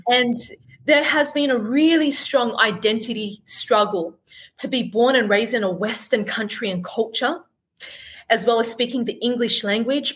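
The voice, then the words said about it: Australian accent. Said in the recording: “born and brought up in Sydney, Australia, as you could tell by my accent”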